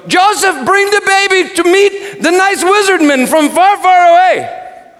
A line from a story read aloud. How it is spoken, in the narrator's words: smiled yelled